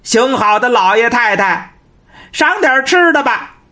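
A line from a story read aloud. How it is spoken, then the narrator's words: Calling out again. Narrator (Chinese): 张广泰又喊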